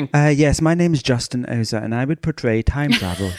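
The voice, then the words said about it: Put-on English accent. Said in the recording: “I don't know why I gave you an English accent.”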